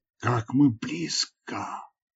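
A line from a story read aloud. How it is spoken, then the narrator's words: Excited exclamation. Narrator (Russian): взволнованно воскликнула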